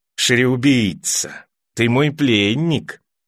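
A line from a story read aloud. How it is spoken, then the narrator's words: Lisped. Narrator (Russian): прошепелявил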